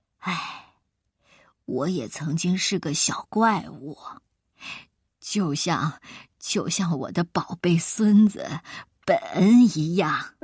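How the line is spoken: Sighing. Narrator (Chinese): 外星人叹口气说

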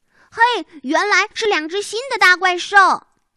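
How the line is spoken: Booming shout. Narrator (Chinese): 他的喊声震得墙壁和盒子里的乳牙都晃起来了

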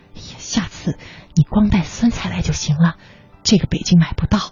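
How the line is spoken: Quiet, to mother. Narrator (Chinese): 他小声对他妈妈说

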